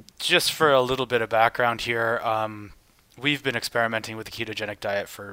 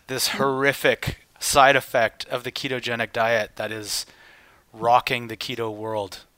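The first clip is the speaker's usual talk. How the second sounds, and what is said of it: Sarcastic tone. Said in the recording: “I'm being sarcastic, of course.”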